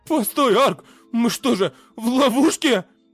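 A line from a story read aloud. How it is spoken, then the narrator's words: Frightened question. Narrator (Russian): Испуганно спросил Кёрн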